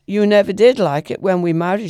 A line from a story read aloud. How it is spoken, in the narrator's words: she said